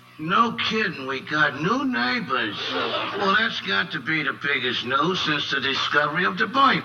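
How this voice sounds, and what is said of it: Spot-on Archie Bunker character voice. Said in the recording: “delivering a spot-on Archie Bunker impersonation”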